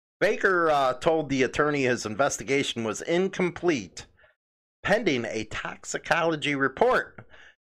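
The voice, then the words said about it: Loud Chicago accent. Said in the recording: “I got this damn Chicago accent that I try to pin down because it gets loud”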